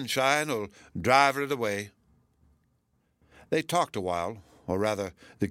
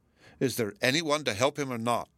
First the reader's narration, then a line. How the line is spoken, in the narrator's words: he asked impatiently